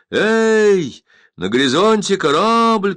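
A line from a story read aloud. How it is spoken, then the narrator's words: Lookout shouting. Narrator (Russian): кричал дозорный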